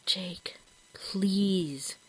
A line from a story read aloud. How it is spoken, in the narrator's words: he whispered